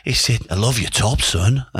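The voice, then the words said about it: Impression of Bobby's accent. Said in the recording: “I'll do his accent.”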